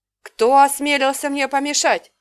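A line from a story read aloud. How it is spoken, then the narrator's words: Barked. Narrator (Russian): рявкнула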